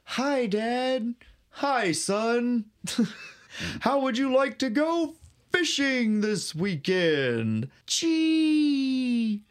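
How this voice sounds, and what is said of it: Wholesome family character voices. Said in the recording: “this is my impression of life at Brian's house.”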